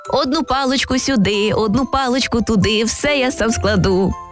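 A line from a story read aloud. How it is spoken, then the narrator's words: Cheerful singing. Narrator (Ukrainian): Весело наспівував Бобик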